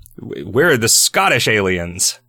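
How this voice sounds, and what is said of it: Put-on Scottish accent. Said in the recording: “That was my Scottish accent.”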